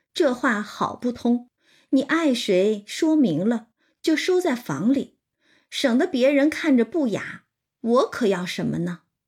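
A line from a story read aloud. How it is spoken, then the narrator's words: Laughing. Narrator (Chinese): 金贵笑道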